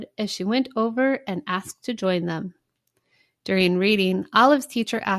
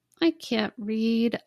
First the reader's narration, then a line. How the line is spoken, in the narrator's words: Olive sighed